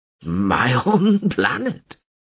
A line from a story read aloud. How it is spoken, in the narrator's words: Harmin wheezed with laughter